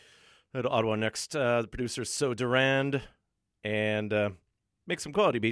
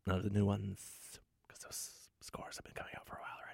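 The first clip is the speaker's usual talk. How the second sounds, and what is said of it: Whispering. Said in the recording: “I'm going to stop whispering.”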